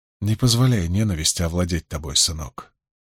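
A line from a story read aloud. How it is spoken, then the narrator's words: Quiet, sympathetic. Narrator (Russian): тихо и участливо сказал Абл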